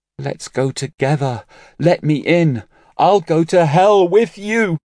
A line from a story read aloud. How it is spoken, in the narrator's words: Tears welled up in Dongfang Yanshu's eyes, and she cried